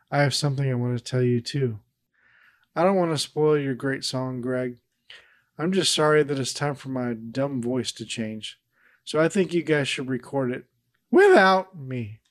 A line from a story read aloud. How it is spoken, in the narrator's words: Peter, in a somber tone, says